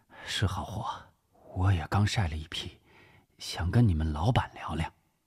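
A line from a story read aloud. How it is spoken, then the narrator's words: Quiet, weary. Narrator (Chinese): 声音不大，看上去憔悴了许多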